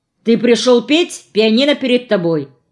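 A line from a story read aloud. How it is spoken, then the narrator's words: Sharp reminder. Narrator (Russian): резко напомнил ему Женя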